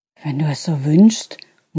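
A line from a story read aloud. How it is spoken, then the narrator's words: Unconvinced murmur. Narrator (German): murmelte sie, noch immer nicht ganz von der Dringlichkeit überzeugt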